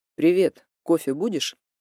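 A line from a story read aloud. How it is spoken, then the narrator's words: Casual, everyday tone. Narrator (Russian): поинтересовался будничным тоном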